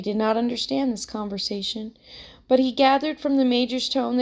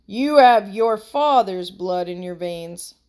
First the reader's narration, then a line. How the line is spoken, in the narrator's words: said the colonel, laughing